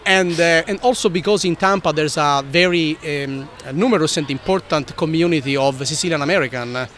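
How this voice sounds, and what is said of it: Strong Italian accent. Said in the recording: “my tough Italian accent”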